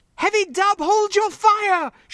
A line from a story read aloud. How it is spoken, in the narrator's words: she screamed